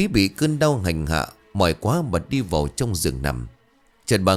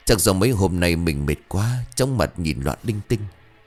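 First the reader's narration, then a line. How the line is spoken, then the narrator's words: Sighing mutter. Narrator (Vietnamese): Bà thở dài rồi lẩm bẩm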